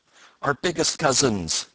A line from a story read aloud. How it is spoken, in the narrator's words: cried Peter and Jumper together